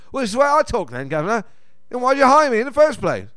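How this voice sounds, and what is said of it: Cockney accent. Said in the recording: “lose the Cockney accent.”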